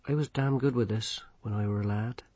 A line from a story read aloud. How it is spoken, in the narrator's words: he said quietly